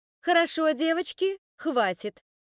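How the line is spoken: Loud. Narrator (Russian): миссис Найт ... громко сказала

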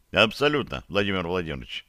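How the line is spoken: Plain. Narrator (Russian): ответил комфлота

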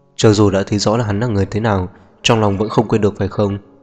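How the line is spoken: Irritated, annoyed. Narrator (Vietnamese): tâm trạng của Louis thương yêu thực sự đất đang bực bội

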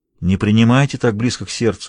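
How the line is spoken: Soft. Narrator (Russian): мягко сказал он

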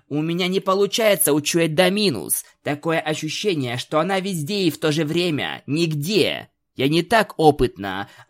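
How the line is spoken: Snapping retort. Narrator (Russian): огрызнулась Твайлет

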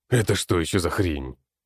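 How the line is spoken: Old man's exclamation. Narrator (Russian): воскликнул старик

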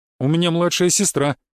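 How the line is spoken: Grumbled, holding nose. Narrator (Russian): буркнул я, продолжая держаться за нос

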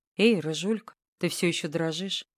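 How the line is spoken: Quiet. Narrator (Russian): тихо говорит он

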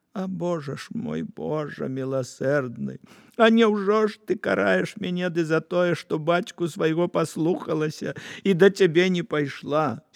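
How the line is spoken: Woman crying aloud. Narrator (Belarusian): кабета заплакала ў голас

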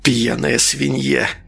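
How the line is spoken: Child's hiss. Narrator (Russian): прошипел малыш

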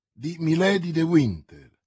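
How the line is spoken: Plain. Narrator (Italian): rispose D'Artagnan

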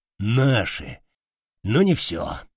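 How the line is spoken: Sighing. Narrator (Russian): вздохнул Уйбуй

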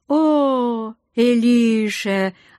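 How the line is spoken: Joyful greeting. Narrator (Russian): радостно поприветствовал меня Сентар

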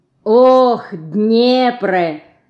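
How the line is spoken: Loud echoing repeat. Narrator (Russian): громко повторила вслед за матерью Динка

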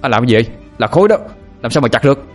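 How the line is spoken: Shouted back. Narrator (Vietnamese): hét trở lại

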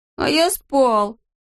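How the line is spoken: Whimpering. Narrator (Russian): захныкал Алешка

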